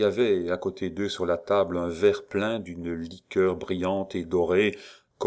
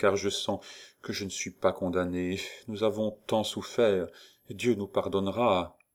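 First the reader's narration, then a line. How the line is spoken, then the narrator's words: Murmured. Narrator (French): murmura Valentine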